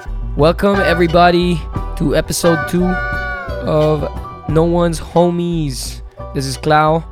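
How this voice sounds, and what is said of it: Rough, hoarse voice. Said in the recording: “my voice is a little rough today... a lot of screaming”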